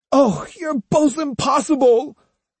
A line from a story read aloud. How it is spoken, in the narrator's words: wailed Jotaro